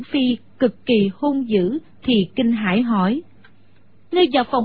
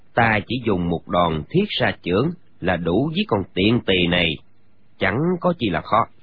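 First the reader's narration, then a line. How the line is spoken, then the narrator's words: Quiet, low voice. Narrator (Vietnamese): Gã ... nhỏ giọng nói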